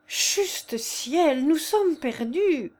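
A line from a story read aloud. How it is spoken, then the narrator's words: Exclaiming. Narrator (French): s'écria Anzoletto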